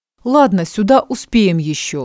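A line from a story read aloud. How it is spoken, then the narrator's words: Plain. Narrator (Russian): говорит Виха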